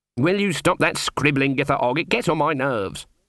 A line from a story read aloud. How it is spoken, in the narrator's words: snapped Granny